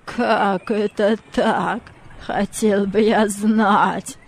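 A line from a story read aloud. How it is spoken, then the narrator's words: Laughing with uncertainty. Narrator (Russian): Мартина рассмеялся, но в голосе его чувствовалась неуверенность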